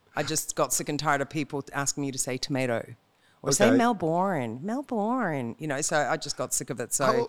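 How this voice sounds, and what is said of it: Australian accent. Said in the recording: “She got an Australian accent... I had to learn to speak Australian”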